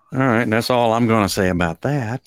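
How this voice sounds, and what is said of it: Forrest Gump character voice. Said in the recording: “that was my impression... of Forrest sounded Gump”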